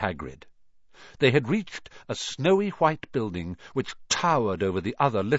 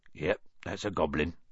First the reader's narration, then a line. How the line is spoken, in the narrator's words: said Hagrid quietly